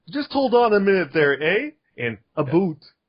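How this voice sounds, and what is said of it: Put-on Canadian accent. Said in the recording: “So it was like Wolverine from the Great White North.”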